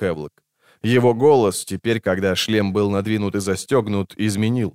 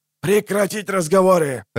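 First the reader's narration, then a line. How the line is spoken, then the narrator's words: Harsh bark through distorted speaker. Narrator (Russian): рявкнул старший, насилуя динамик в шлеме у Баси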